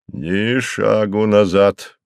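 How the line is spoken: Stern. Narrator (Russian): строго произнес он

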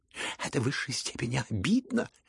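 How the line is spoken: Shrieked. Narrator (Russian): завизжал Ипполит

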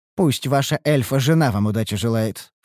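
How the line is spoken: Scornful snort. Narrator (Russian): фыркнула язва

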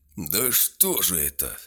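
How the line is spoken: Young knight exclaiming again. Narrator (Russian): опять воскликнул молодой рыцарь

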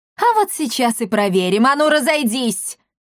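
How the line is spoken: Shouted. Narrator (Russian): крикнула Бия

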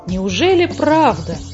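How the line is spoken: Exclaimed in surprise. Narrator (Russian): воскликнула муми-мама

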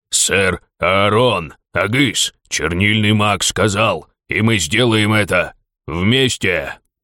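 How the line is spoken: Growling orc. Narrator (Russian): прорычал орк

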